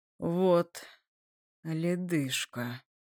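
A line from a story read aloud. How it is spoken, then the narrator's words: Hissing through teeth. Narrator (Russian): шипит сквозь зубы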